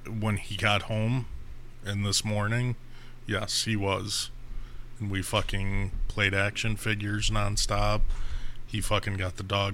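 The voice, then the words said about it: Crackly, strained voice. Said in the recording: “My voice is all crackly today.”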